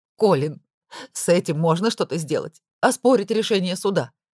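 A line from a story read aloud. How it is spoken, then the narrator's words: Sobbing woman's question. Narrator (Russian): спросила она сквозь рыдание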